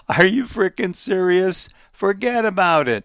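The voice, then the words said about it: Put-on New York accent. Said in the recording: “I'll give you the New York accent there.”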